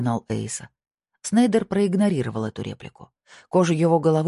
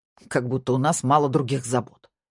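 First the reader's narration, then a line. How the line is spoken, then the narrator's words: Snorting. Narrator (Russian): фыркнул Эйса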